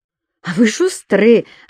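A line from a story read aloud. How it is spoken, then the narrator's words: Bursting out laughing. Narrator (Russian): расхохоталась Юля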